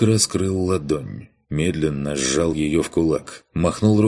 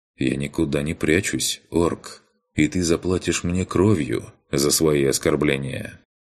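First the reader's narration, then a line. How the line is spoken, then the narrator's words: Calm reply. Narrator (Russian): также спокойно ответил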